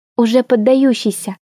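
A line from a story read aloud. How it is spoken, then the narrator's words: Whisper in ear. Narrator (Russian): шепнула Морган мне на ухо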